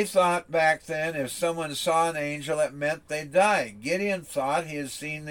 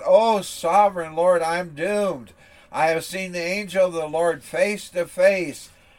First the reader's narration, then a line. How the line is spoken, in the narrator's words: when Gideon realized that it was the angel of the Lord, he cried out